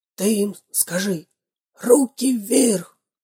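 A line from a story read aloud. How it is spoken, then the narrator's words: Whispering robber. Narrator (Russian): зашептал первый разбойник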